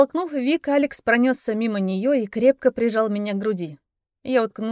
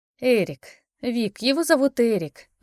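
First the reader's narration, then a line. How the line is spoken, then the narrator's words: Sigh. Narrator (Russian): вздохнула я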